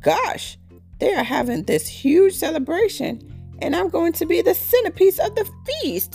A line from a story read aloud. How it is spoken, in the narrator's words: Tom cried to himself, shuddering all over